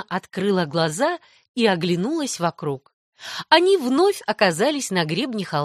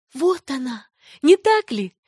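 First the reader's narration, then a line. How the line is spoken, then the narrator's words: Girl's exclamation. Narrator (Russian): воскликнула девочка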